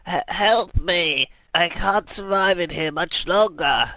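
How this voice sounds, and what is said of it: Choked old man's cry. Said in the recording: “calls out in a sort of choked voice”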